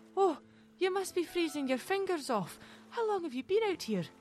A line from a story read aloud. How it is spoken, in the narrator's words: Mary exclaimed